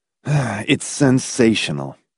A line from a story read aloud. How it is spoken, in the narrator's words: Hamilton said bitterly